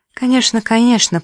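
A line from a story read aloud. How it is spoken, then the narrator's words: Mumbled. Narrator (Russian): промямлила Джосс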